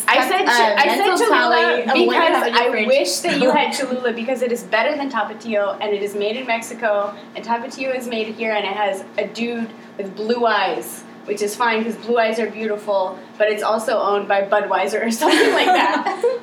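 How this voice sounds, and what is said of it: Yelling, loud raised voice. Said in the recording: “I'm yelling at you.”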